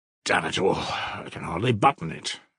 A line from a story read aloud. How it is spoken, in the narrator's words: Mitya grumbled